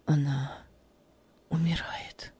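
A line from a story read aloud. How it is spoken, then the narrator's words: Breaking voice, near whisper. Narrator (Russian): Голос его сорвался и почти шепотом добавил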